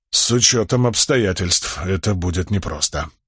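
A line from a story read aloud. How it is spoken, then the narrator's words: Mutter. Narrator (Russian): пробормотал Далинор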